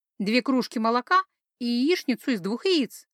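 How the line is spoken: Cheerful princess ordering. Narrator (Russian): бодро заказала принцесса

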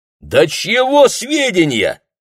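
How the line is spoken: Impatient shout. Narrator (Russian): крикнул лейтенант, теряя терпение

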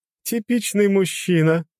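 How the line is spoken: Laughing loudly. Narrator (Russian): расхохоталась

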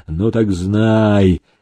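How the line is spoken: After a deep breath. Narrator (Russian): широко вздохнув грудью, сказал Демидов

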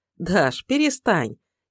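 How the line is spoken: Awkward laugh. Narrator (Russian): Неловко рассмеялась Лера

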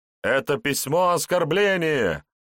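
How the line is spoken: Shouted outburst. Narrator (Russian): выкрикнул один из рыцарей

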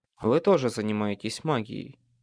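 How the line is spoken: Quiet remark. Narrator (Russian): Негромко заметил

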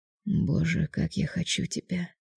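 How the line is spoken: Muttered. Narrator (Russian): бормотал он

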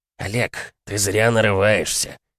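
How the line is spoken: Icy voice. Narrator (Russian): ледяным голосом ответил Владимир

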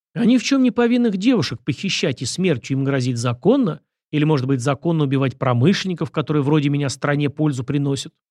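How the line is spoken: Angry young man's question. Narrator (Russian): зло поинтересовался парень

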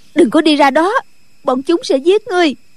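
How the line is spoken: Woman crying out. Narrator (Vietnamese): Nhạc phu nhân la lên

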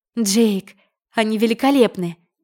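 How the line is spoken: Exclaiming. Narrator (Russian): воскликнула

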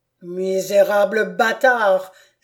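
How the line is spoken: Count exclaiming. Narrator (French): s'écria le comte

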